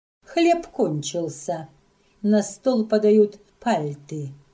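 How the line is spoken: Plain. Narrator (Russian): сказала она

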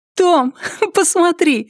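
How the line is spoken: Laughing. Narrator (Russian): смеясь

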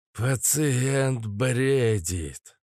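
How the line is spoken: Tired doctor reporting. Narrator (Russian): устало начал рапортовать доктор

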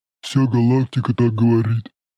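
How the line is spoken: Booming drone. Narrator (Russian): прогудел сосед Шороха

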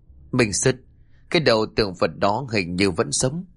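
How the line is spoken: Stammering. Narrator (Vietnamese): Nó lắp bắp nói

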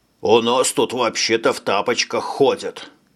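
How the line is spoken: Grumbling. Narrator (Russian): пробурчал Шойбле

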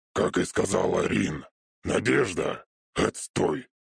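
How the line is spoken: Smirking snort. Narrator (Russian): хмыкнул

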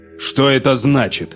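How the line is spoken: Indignant question. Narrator (Russian): спросил Андрей возмущенно

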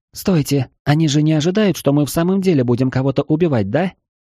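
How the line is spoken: Sudden timid speech. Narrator (Russian): Вдруг робко проговорила Афродита

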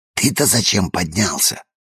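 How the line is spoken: Whisper. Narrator (Russian): прошептала она

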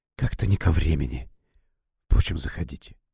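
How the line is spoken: Mutter. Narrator (Russian): Полковник пробормотал

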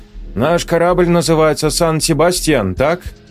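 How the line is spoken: Deliberately loud voice. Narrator (Russian): Аника нарочито громким голосом сказала на интерлингве

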